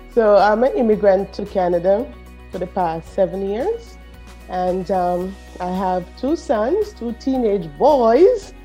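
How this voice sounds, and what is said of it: Jamaican Caribbean accent. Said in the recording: “that Caribbean accent, I'm from Jamaica”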